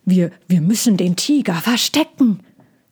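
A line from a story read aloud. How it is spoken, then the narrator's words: Growling speech. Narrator (German): sagte Trojan und knurrte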